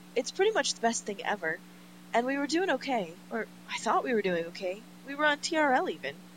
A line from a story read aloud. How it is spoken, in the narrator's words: says excitedly